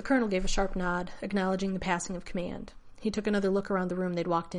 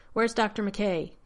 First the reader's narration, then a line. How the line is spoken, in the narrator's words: he barked